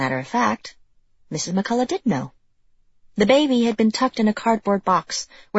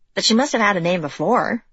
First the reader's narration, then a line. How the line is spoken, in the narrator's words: Izzy said